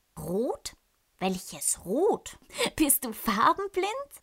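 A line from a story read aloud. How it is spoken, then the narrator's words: Giggling. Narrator (German): kichert Flora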